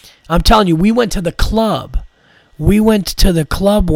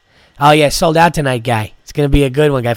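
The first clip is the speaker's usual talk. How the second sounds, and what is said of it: Put-on Boston accent. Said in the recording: “a Boston accent”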